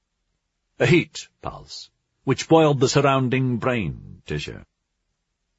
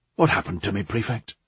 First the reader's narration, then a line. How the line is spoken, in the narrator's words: Dreyfus kept his tone studiedly neutral